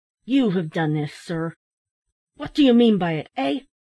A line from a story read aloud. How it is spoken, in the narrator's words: a feeling of intense indignation unaccountably took possession of him, and he turned fiercely on the old gentleman, exclaiming